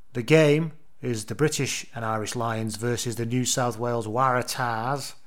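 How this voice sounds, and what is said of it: Put-on accent. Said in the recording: “I apologise for that accent.”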